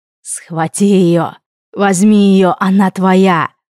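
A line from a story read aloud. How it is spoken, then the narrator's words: Hoarse unfamiliar growl. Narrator (Russian): прорычал чужой, абсолютно незнакомый мне голос, наполненный хрипами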